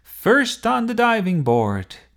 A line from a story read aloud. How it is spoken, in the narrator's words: shouted